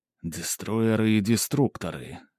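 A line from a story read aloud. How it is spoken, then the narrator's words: Slow whisper. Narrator (Russian): медленно прошептал он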